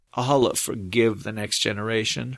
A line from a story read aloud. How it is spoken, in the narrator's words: her uncle muttered